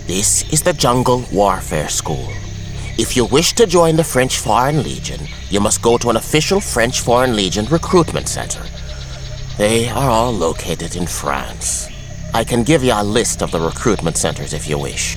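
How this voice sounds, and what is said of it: Thick Irish accent. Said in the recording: “replied in English with a thick Irish accent”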